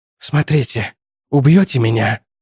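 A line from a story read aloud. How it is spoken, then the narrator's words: Whispered. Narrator (Russian): прошептал он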